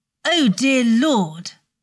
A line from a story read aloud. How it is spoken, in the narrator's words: Draco snapped